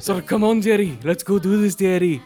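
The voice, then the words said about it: Put-on Scottish accent. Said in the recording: “Scottish friend ... imitating one of his friends talking ... a really good Scottish accent”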